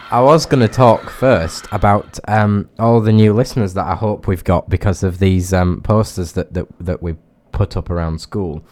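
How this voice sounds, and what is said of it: Snuffly congested voice. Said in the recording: “I have a little bit of a cold or hay fever thing today, so if my voice is a bit snuffly ... said that I sounded snuffly”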